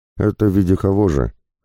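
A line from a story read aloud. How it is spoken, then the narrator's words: Dismissive grunt. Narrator (Russian): хмыкнул Пападакис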